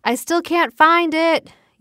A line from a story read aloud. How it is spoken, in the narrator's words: yelled Anna